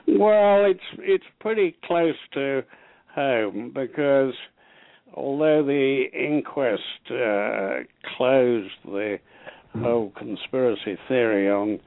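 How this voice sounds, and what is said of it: British accent. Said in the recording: “you are a royal insider from Britain, as people can tell by your accent. That's not fake. That's not fake.”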